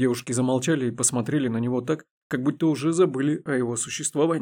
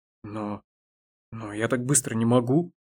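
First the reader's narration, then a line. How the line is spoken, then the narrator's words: Confused mumble. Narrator (Russian): растерянно пробормотала Даша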